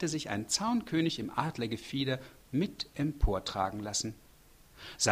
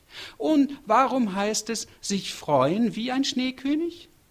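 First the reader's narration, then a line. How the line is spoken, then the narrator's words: Sudden call. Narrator (German): rief es plötzlich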